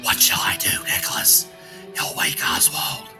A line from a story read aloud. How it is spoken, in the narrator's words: Allison clapped her hand over her mouth and whispered